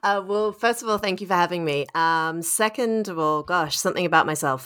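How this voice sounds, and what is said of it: Australian accent. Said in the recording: “as you can probably hear from my voice, I'm Australian”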